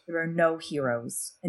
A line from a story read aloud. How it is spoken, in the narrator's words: a voice inside her whispered